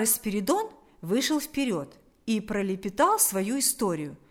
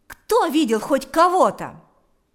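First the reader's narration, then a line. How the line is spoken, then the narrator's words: Shout. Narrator (Russian): закричал Шила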